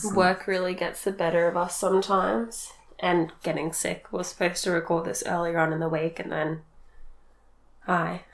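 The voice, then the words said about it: Creaky vocal fry, sick voice. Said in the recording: “Sorry for the vocal fry. I have some Vicks on. ... I've done a whole course of cold and flu.”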